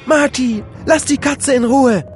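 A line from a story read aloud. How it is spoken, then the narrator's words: Calling from below. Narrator (German): rief Ricky von unten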